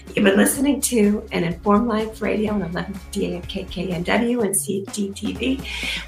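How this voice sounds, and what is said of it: Hoarse, failing voice. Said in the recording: “My voice is about gone”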